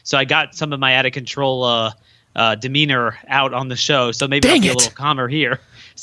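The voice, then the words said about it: Hoarse voice. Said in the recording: “that's why I'm a little bit hoarse because I was screaming my head off”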